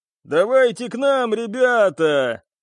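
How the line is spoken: Cheerful girl shouting. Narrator (Russian): весело закричала девушка

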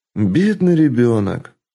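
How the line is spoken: Older woman's sigh. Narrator (Russian): вздохнула старшая гейша

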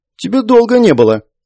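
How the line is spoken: Offended voice. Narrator (Russian): она обиженным голосом произнесла

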